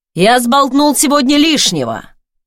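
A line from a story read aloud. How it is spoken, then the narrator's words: Shouted after being ignored. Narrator (Russian): когда понял, что я проигнорировала оклик, выкрикнул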